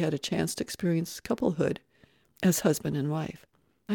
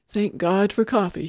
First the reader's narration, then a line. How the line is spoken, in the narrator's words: he rasped